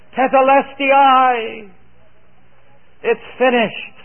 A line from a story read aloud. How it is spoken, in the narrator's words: he cried out into the heavens